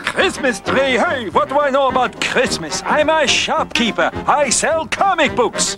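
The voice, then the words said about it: Stereotypical Jewish accent. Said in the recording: “the tropiest Jewish accent”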